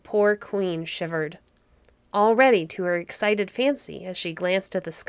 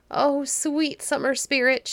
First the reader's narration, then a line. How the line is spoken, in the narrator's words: cried